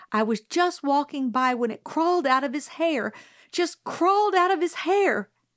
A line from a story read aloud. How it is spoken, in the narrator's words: Miss Caroline said desperately